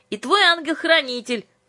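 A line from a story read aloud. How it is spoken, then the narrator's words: Shout into phone. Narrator (Russian): крикнула Юлька в трубку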